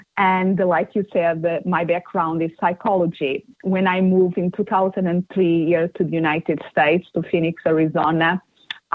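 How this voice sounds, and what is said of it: Portuguese accent. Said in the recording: “where is my accent from? ... I'm originally from Portugal, so it's the Portuguese accent that I have”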